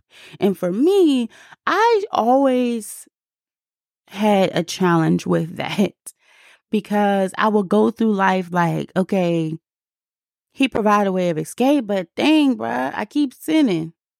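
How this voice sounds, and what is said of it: DC accent. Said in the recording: “my DC accent came out just a little bit”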